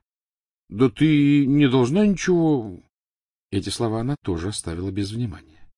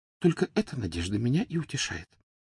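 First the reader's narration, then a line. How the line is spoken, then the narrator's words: Whisper. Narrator (Russian): прошептала она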